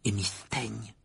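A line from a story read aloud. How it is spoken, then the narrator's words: Murmured. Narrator (French): murmura-t-il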